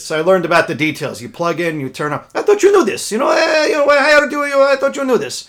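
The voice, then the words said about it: Imitated Israeli accent. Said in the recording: “that's a wonderful Israeli accent.”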